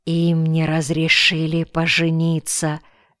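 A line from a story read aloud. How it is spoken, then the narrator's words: Whispering. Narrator (Russian): шепнул Каян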